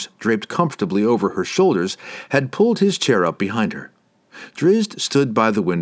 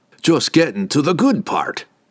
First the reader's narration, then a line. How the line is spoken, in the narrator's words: Brunner grumbled